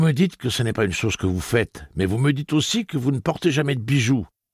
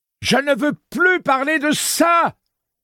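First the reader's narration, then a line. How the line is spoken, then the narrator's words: Screamed. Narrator (French): hurla-t-elle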